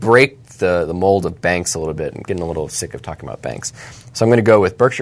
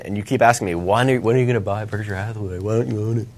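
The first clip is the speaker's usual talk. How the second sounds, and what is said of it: Imitates another person's voice. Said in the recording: “That's how you sound. ... That's a really good impression. ... I'm sure the listeners probably thought that I was talking right then.”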